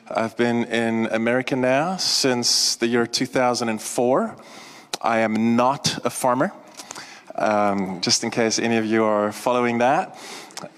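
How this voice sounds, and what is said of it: South African accent. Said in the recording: “if you do hear an accent, it is South African.”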